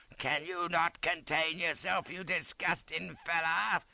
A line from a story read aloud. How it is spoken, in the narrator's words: snaps in a highly nervous condition